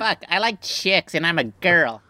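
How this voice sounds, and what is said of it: Man doing a stereotyped gay voice. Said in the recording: “Your Emily voice is just a generic gay voice ... That's a guy doing a gay voice.”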